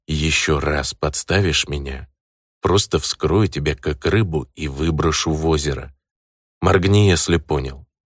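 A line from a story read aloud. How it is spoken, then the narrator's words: Quiet. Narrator (Russian): тихо произнес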